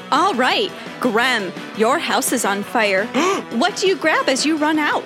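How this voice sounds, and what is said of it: Bubbly game show host voice. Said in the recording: “Do your voice again ... game show ... is very bubbly ... it's very off-putting”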